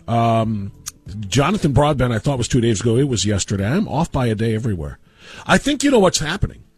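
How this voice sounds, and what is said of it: Slightly nasal, congested voice. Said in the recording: “In case you can't hear it in my voice, I'm a little nasally today. This is the first cold that I have had”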